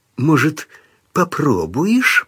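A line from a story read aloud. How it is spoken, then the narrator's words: Hissing. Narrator (Russian): прошипел тот, что резал полицейских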